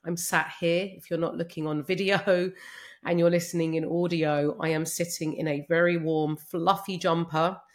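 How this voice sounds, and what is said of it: Congested voice with a cold. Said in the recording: “you may be able to hear from my voice that I'm still a bit full of cold ... I'm going to try my hardest not to sniff”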